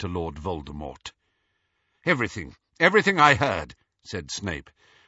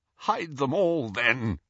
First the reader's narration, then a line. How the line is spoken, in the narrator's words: he croaked